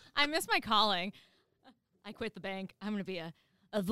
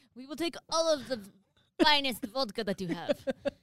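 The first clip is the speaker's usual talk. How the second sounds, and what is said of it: Mock cartoonish Russian-French accent. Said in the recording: “That sounds like a character from a cartoon. From Bullwinkle. From Bullwinkle. Natasha. ... what accent was that? ... It wasn't Russian. ... It was French. That French who doesn't speak French.”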